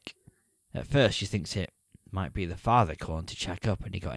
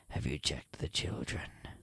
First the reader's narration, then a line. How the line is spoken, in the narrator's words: a man on the line who says in a chilling voice